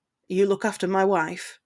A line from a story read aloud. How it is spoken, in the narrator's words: Ted said in a hushed tone, so only they would hear